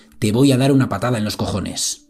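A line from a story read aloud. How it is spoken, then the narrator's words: Policeman blurting, mock-polite. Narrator (Spanish): el policía espetando un educado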